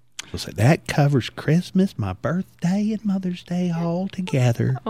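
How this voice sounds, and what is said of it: Imitates another person's voice. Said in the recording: “I love your impersonation of your mom. ... And that's exactly how she sounds.”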